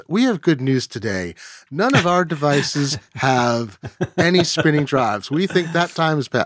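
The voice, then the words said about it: Put-on Memphis Southern accent. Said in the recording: “That was more of a Memphis accent.”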